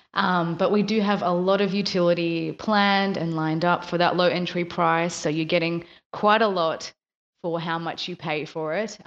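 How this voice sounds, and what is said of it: Rusty, slightly hoarse morning voice. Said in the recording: “it's morning here. I haven't spoken to anyone yet, so my voice is a little bit, a little bit rusty still”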